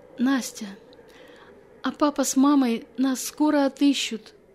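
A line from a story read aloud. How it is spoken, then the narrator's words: Tired hopeful child's question. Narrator (Russian): Устав хныкать, с надеждой в голосе спросил Вася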